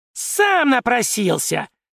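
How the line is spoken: Shriek. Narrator (Russian): Завизжал Шулер

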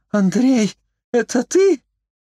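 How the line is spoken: Frightened woman's squeak. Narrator (Russian): пискнула трясущаяся от страха женщина

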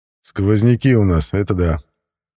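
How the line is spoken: Muttering. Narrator (Russian): Пробурчал я

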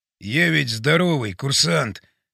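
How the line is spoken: Whispering. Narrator (Russian): шептал он

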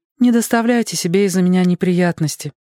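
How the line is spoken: Sad. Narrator (Russian): грустно сказала она Перри Мейсону

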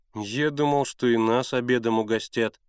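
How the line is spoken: Glum, dejected. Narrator (Russian): уныло проговорил Генка

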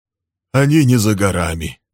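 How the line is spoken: Grim remark. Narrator (Russian): мрачно заметил Билл

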